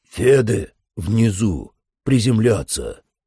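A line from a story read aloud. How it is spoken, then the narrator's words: Hoarse over radio. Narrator (Russian): прохрипел кулак в рацию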